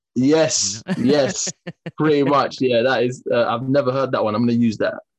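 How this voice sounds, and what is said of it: English South London accent. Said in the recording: “I'm judging by the accent. You're from there. ... Great English accent. ... I'm from South London.”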